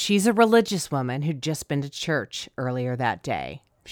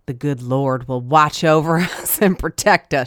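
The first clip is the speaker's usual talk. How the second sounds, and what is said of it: Put-on Southern US accent. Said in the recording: “That southern accent, it's the only accent I can do.”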